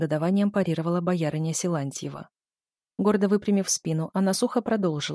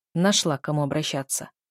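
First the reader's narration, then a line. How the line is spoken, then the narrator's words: Displeased interruption. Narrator (Russian): недовольным тоном перебил жену боярин Силантьев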